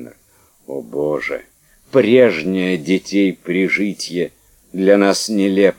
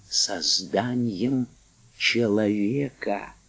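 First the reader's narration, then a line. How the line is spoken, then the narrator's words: Whisper. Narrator (Russian): Вагнер шепотом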